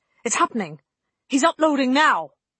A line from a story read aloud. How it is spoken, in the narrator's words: Holston shouted